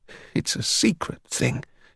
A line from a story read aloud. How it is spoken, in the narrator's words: he protested weakly